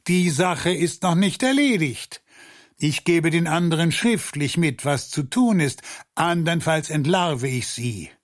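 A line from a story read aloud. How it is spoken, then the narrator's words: Calling back from distance. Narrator (German): Dann rief er noch vom Tor aus zurück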